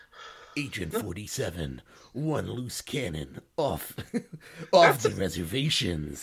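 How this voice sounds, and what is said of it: Dramatic movie trailer narrator voice. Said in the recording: “That's a really good movie trailer voice”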